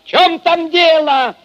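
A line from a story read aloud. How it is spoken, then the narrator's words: Shout into darkness. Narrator (Russian): Крикнул он в темноту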